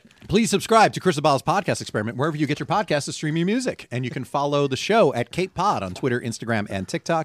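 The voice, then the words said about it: Announcer voice. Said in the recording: “I'm doing it in my announcer voice because I'm so used to it. It's default mode.”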